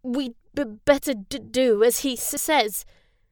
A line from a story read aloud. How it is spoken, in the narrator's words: Ben stammered